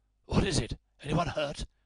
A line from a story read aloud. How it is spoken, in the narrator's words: he asked hoarsely